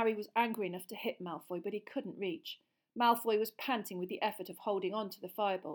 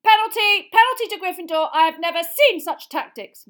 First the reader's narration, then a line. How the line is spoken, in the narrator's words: Madame Hooch screeched, shouting up